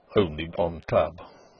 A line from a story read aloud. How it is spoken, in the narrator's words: mutters from his inmost stomach the pursy rector, who sits there red-faced, silent, impervious, careful